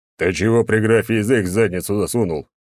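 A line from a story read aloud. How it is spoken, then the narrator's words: Deep bass voice. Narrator (Russian): пробасил Черномор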